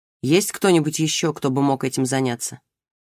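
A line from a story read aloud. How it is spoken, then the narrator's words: Plain. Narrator (Russian): спросил он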